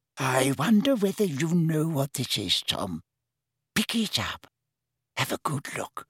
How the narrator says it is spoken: whispered Hepzibah

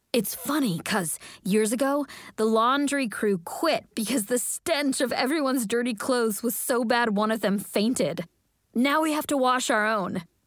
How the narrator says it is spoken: Morgan loudly whispers

